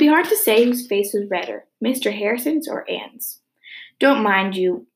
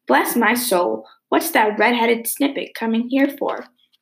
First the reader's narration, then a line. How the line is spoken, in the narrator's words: Ginger exclaimed